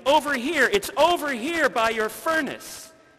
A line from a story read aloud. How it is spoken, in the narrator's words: Randy exclaimed